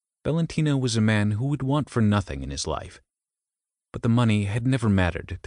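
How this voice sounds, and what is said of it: Subtle Italian accent. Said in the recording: “he has quite a nice Italian accent. It's not very strong, quite subtle.”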